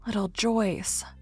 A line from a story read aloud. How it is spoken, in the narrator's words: she murmured